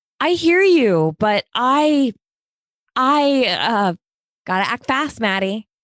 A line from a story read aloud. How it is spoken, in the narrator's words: Talia yelled